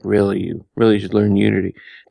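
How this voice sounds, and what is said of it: Imitates another person's voice. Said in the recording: “that's not a very good impression of him”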